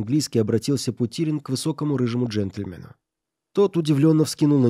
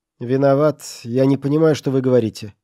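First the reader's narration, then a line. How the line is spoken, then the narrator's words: Cold, curt. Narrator (Russian): холодно бросил он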